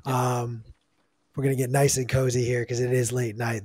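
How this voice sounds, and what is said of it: Tired, fading voice. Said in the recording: “my voice is escaping me”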